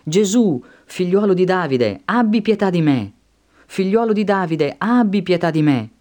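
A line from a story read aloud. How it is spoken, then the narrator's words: Shouting. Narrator (Italian): prese a gridare e a dire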